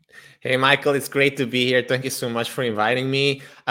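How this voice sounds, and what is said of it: Speaks with a foreign accent. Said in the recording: “that wonderful accent of yours”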